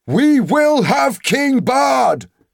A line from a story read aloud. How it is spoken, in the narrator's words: the people near at hand shouted in reply